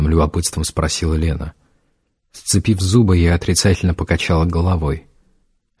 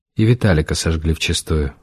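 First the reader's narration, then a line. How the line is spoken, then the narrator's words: Gloomy. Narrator (Russian): мрачно сказала Ленка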